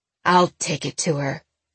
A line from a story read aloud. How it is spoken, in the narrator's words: he snarled